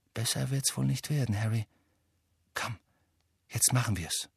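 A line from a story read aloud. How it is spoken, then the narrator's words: Quiet. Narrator (German): sagte Hermine leise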